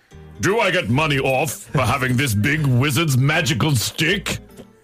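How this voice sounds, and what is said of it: Impression of Gandalf's voice. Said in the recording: “do an impersonation of Gandalf from Lord of the Rings ... I don't do an impersonation ... I'm going to try”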